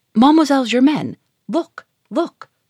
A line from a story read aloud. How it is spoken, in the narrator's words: she cried